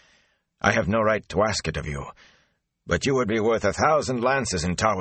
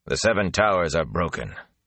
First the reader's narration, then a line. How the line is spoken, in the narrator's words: Lan said harshly